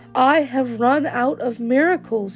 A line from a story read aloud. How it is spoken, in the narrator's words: said